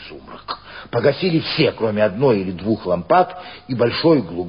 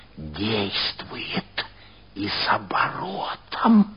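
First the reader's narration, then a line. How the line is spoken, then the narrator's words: Whispered. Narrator (Russian): шепнула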